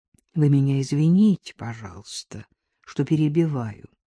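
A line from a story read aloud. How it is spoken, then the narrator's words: Ingratiating. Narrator (Russian): вкрадчиво начал Терехов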